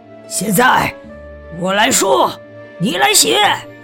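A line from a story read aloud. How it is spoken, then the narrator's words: Roaring. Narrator (Chinese): 巴克斯咆哮着说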